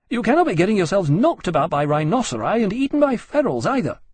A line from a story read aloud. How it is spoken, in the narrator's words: Keynes snapped